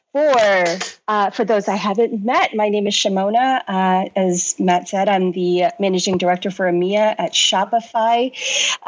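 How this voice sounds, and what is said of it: Canadian accent. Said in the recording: “hopefully you can all tell by my accent, I'm not actually British ... born and raised originally in Canada, grew up in Toronto”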